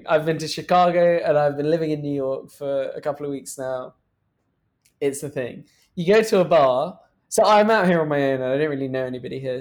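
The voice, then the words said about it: British accent. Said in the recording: “Having a British accent makes that a million times easier.”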